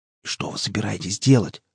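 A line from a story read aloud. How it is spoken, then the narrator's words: Whispered question. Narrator (Russian): спросил шепотом Штырь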